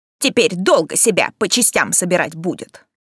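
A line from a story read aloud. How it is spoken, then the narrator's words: Snort, smug conclusion, woman. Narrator (Russian): Полисий фыркнув, самодовольно заключила моя спасительница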